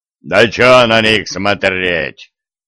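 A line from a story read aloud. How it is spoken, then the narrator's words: Fired-up growl. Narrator (Russian): рыкнул раздухарившийся левша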